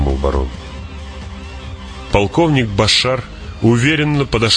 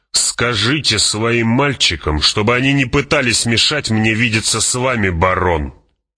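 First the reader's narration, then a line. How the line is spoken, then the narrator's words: Growled. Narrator (Russian): прорычал он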